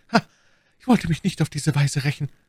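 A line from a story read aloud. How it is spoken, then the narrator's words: Stammering with devilish grin. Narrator (German): stammelte Milady, während sie mit einem höllischen Grinsen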